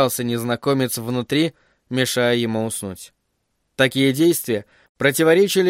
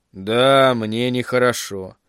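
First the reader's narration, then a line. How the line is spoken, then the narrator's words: Gloomy reply. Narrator (Russian): мрачно ответил Пейна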